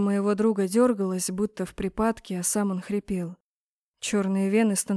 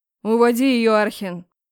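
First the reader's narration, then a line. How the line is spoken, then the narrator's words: Barked. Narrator (Russian): Рявкнул Реймонд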